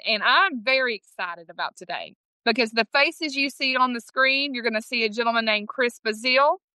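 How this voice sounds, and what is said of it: East Texas Southern accent. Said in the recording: “my East Texas Southern accent”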